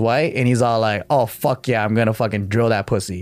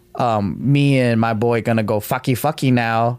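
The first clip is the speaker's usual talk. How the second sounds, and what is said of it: Mock Asian accent. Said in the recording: “like doing that Asian accent.”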